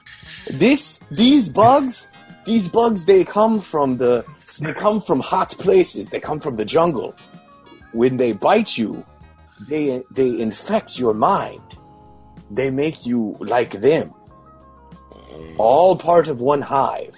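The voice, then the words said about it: Vague European-sounding accent. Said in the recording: “where the hell are you from? Your accent. ... He's European.”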